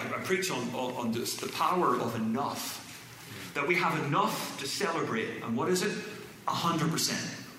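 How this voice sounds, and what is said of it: Irish accent. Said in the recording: “it won't sound as good without an Irish accent”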